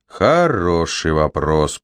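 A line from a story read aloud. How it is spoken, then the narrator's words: Mutter. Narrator (Russian): пробормотал Аарон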